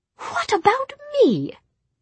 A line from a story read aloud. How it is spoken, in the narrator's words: said Jessamine indignantly